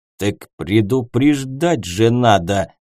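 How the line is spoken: Leader's angry hiss. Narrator (Russian): Зло прошипел глава

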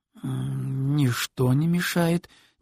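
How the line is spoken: Hesitant drawl. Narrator (Russian): немного неуверенно протянул Тед

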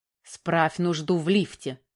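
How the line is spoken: Angry reply. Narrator (Russian): зло ответила Оксана

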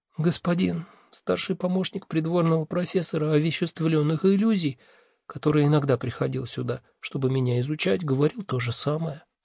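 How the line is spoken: Embarrassed whisper. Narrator (Russian): смущенно прошептала она

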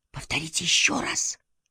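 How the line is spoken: Whisper. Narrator (Russian): прошептал он

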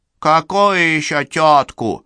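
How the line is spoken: Indignant deep subdued voice. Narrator (Russian): возмущенно пробасил махновец, впрочем, несколько притихший

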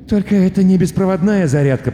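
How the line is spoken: Muttering student. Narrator (Russian): пробормотал студент

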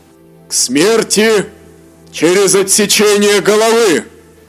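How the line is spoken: Thunderous, cannon-like roar. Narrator (Russian): Словно грохот пушки парового танка прогремел приговор

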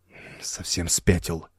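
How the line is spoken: Muttered. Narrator (Russian): пробормотал Док Блейн

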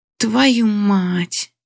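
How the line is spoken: Hoarse passionate growl, male. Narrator (Russian): Хриплое рычание, той страсти, которую слышала в его голосе

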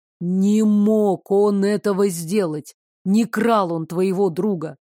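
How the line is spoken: Heavy exhale, then speaking. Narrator (Russian): шумно выдохнул и сказал

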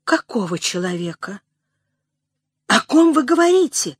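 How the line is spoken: Confused question. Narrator (Russian): спросила растерянно

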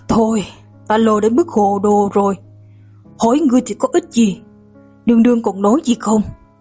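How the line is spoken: Weary sigh. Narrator (Vietnamese): Thái Uyển Vân lập tức thở dài

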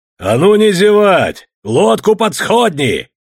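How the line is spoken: Menacing shout. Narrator (Russian): грозно закричал он

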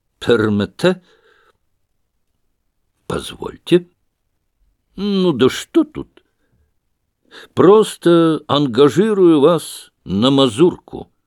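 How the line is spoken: Hoarse falsetto. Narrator (Russian): произнес хриплым дишкантом

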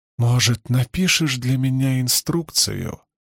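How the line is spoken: Sweet sing-song voice. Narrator (Russian): сладким голосом пропела она

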